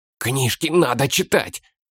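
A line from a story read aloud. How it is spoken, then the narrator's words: Snapping retort. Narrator (Russian): огрызнулся Вовка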